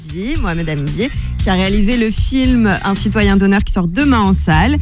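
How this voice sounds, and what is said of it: Arabic accent in French. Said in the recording (French): “ton accent arabe magique”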